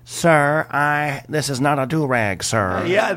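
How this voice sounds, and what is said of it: Imitates another person's voice. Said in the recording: “a great impression”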